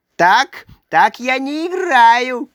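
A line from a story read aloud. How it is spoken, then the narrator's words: Shouting. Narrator (Russian): кричал он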